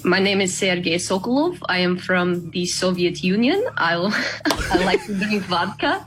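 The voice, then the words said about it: Put-on Russian accent. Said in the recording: “I can do a Russian accent.”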